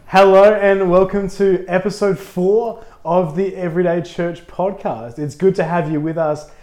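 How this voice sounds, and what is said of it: Slightly husky voice. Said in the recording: “I'm a little bit husky. I'm still getting over a bit of a cold.”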